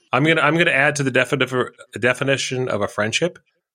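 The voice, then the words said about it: Slurred speech. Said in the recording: “I'm slurring.”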